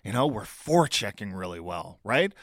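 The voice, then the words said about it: Sarcastic tone. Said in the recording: “I sound a little sarcastic”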